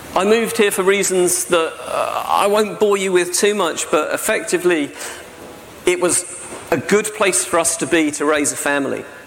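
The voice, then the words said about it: Southern English accent. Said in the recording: “as you can tell from my accent, I'm not Welsh. You know? I grew up down by Gatwick Airport”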